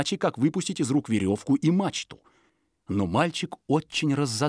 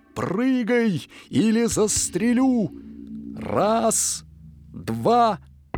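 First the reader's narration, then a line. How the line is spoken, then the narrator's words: Father's shout. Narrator (Russian): отец крикнул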